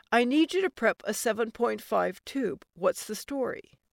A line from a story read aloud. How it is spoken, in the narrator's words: It sounded like he choked